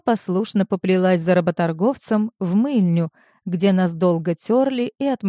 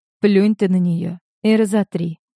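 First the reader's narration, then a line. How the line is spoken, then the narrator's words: Sad. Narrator (Russian): грустно сказала Марина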